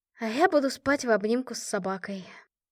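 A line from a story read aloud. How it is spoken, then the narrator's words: Sigh. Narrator (Russian): снова вздохнула я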